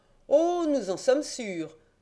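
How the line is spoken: Exclaiming. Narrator (French): s'écria le juge d'instruction

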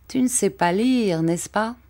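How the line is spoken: Plain. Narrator (French): me dit-il

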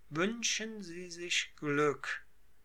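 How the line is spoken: Plain. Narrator (German): sagte

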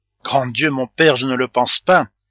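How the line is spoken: Terrified cry. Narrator (French): s'écria Fleur de Marie avec effroi

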